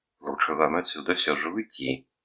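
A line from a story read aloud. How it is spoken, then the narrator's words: Low anxious warning. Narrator (Russian): предостерегла она ее низким тревожным голосом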